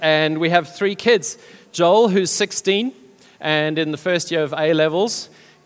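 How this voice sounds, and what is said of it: South African accent. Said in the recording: “We come originally from South Africa. People have told me that I still haven't lost my accent.”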